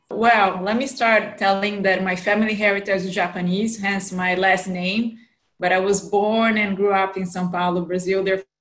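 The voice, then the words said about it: Brazilian accent with American influence. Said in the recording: “for those of you who know a little bit of the Brazilian accent, with an American influence”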